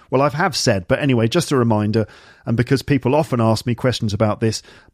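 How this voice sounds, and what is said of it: Standard British received pronunciation. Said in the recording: “my accent is basically standard received pronunciation ... associated with educated middle-class people, probably from the southeast of England ... a bit of West Midlands Brummy in my voice or a bit of London accent ... standard British received pronunciation from the southeast of England, but I'm not posh”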